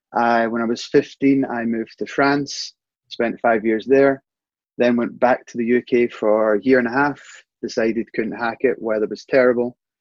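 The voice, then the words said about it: Scottish accent. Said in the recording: “Obviously, I'm from Scotland, probably tell by the accent.”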